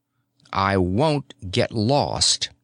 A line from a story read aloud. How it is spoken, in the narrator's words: Eric said coldly